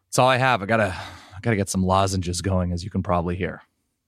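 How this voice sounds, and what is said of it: Raspy, hoarse voice. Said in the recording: “Sound a little raspy ... a little raspy”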